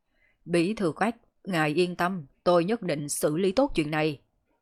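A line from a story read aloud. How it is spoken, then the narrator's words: Stern and loud. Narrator (Vietnamese): nghiêm nghị, lớn tiếng nói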